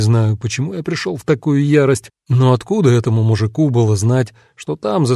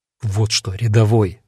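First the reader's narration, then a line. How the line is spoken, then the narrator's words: Menacing hiss. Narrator (Russian): прошипел я таким голосом, что стражник ощутимо побледнел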